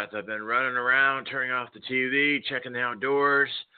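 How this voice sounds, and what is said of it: Slightly breathless speech. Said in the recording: “if you hear me a little out of breath,”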